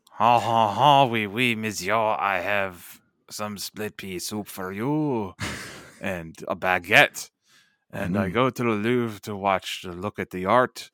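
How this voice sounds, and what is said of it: Very bad fake French accent. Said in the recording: “worst French accent I've ever heard”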